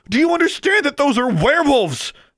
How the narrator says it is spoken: Alexandra shouted

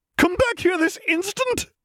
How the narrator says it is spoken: cried McGonagall to the three quickly retreating boys

